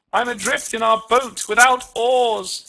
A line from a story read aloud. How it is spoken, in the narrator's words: cried